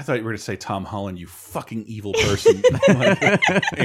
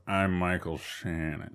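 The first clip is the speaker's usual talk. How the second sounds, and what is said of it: Slow, low, menacing imitated voice. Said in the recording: “my impression ... talks very slow low and menacingly”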